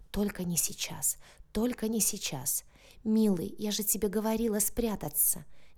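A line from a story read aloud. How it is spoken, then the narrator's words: Tender. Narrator (Russian): нежно проговорила Соня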